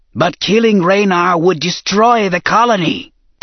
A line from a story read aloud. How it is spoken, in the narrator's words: Tessar rasped